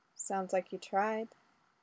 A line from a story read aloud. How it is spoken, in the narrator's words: Ray replied softly